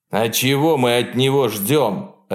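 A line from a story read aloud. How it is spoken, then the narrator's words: Barking snap. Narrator (Russian): Рявкнул Роллинс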